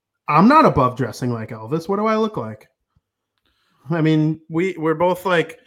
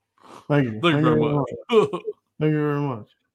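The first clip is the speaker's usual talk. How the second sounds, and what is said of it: Elvis impression. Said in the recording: “Elvis impersonator ... I got to work on my lip curl a little bit”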